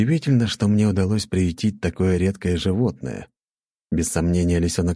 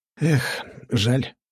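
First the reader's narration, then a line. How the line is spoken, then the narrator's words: Sighing. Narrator (Russian): вздохнул я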